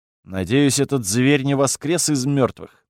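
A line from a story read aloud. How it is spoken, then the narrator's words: Gloomy. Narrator (Russian): мрачно сказал я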